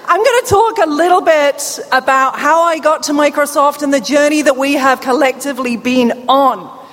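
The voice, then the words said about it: Deaf accent, British speaker. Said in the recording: “because of my deafness, you're going to hear a bit of deaf accent. ... I am not Australian ... come from London”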